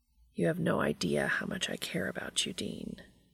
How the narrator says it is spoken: he says quietly

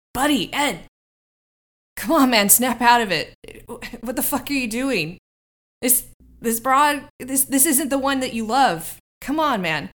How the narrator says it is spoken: he's going to shout at him

